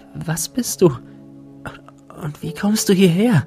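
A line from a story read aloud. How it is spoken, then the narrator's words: Breathless question. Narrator (German): fragte sie atemlos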